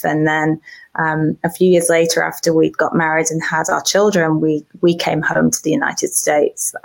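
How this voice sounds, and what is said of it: British accent. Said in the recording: “I have the funny accent that all my friends over here think is wonderful ... I can be extremely angry and people think I sound cute ... British accents”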